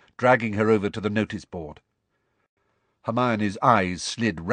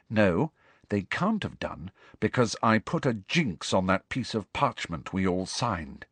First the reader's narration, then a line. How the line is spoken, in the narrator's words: said Hermione grimly